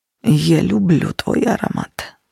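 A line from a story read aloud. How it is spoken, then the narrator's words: Near growl. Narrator (Russian): почти прорычал он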